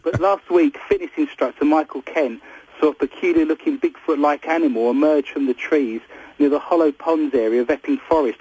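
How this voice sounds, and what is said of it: East End Cockney accent. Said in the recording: “I have an East End Cockney accent”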